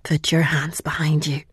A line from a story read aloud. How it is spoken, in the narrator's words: whispered